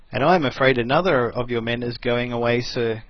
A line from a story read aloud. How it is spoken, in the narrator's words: said T